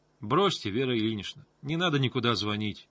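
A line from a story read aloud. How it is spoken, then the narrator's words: More confident tone. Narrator (Russian): сказала Таня уже более уверенным тоном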